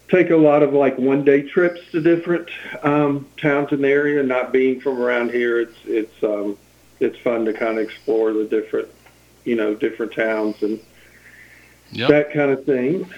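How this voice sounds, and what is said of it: Southern Tennessee drawl. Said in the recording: “southern drawl a little bit ... You can't outdo 50 years of Tennessee”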